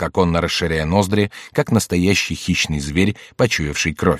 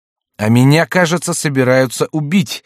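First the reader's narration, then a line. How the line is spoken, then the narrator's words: Shouted. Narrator (Russian): закричал Ламоль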